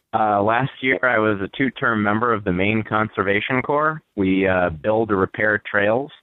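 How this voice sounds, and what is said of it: Tired-sounding voice. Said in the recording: “I sound a bit tired probably”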